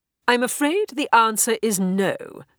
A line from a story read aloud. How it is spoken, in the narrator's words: said Braxiatel firmly